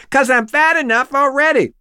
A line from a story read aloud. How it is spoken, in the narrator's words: A girl yells out